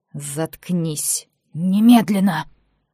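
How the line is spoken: Aunt's hiss through teeth. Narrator (Russian): прошипела тетя сквозь зубы

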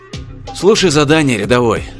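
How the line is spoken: Sighing. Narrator (Russian): вздохнул Чен

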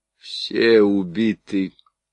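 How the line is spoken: Hoarse. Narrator (Russian): хрипло проговорил он

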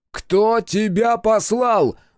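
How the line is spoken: Yelling. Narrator (Russian): заорал Хитсу

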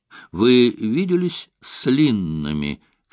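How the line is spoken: Strange-toned question. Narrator (Russian): каким-то странным тоном спросил он

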